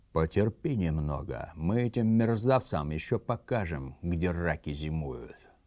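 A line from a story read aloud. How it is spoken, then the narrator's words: Sinister whisper. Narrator (Russian): Сотрудница, спущенная к нам из органов после расстрела Берии, прошептала зловещим шепотом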